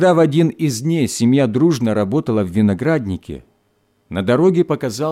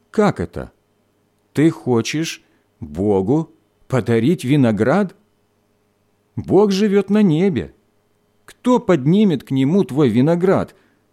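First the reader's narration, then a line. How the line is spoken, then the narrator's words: Plain. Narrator (Russian): спросил он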